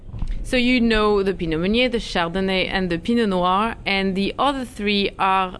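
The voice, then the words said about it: Non-native accent in English. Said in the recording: “sorry for my accent”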